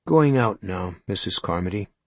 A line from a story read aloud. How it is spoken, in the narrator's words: Ollie said